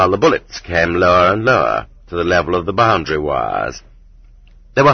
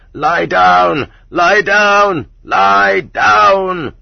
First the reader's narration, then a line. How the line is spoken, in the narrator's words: many voices vying with each other in hysterical shrillness screamed